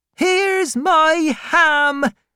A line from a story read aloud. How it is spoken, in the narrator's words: screamed Peggotty